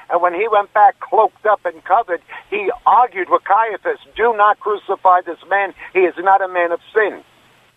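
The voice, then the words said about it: New York accent. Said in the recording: “You're originally from New York. I can hear it in your accent.”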